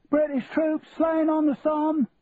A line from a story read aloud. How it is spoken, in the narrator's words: shouted out the boy who stood on the corner of Covent Garden